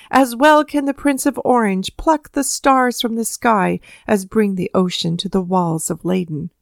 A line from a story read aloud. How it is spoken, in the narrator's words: shouted the angry Spaniards